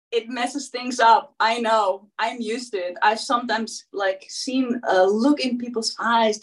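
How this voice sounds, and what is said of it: Non-native accent. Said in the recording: “it's the accent, right?”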